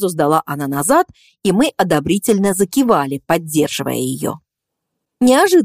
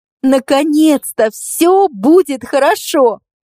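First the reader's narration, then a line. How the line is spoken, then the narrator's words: Joyful, proud exclamation. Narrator (Russian): воскликнула Катя, все еще находясь под впечатлением слов Егора, не в силах сдержать радость и гордость за его поступок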